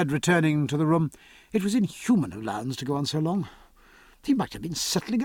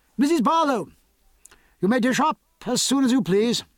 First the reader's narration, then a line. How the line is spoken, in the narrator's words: Sir Joseph directed his voice down the back stairs and called out